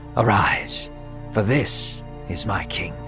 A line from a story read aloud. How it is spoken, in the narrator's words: God whispered to Samuel and said